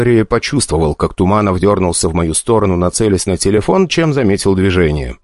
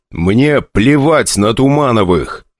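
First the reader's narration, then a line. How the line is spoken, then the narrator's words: Furious, through gritted teeth. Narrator (Russian): цедил слова с такой злостью, что даже Дейзик зарычал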